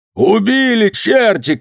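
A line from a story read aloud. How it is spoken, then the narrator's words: Shout. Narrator (Russian): крикнул Надейка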